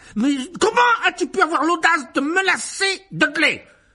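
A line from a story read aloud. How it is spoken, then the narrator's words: Roaring. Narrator (French): rugit l'oncle Vernon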